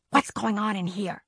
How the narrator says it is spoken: He whispered

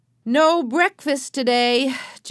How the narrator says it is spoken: Joe called in a loud voice

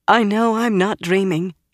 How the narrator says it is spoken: she said in a quivering voice

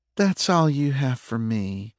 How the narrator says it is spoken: she asked, her voice holding a hint of a purr to it

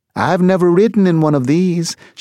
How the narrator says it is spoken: she called out the window

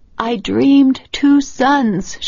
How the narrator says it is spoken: she croaked

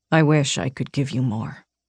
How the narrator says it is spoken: he said softly

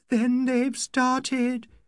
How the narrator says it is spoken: she moaned

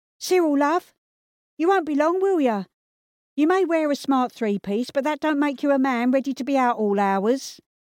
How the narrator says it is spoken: Peggy called out

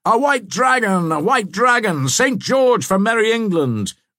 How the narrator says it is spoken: The shout of

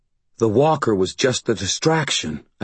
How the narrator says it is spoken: I breathed

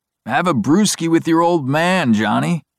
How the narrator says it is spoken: pleading

